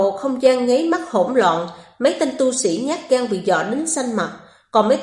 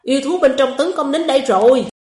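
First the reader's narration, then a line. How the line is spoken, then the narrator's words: Panicked shout. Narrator (Vietnamese): có người hoảng sợ quát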